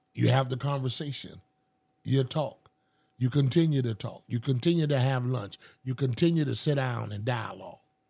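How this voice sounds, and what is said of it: Noticeable accent, passionate speech. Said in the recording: “I love his accent ... because the accent still comes through when you get really passionate”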